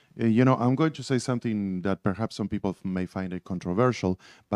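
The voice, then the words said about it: Non-native English accent. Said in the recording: “everybody can understand how easily and how beautiful you speak English. I have the excuse. ... It was my accent.”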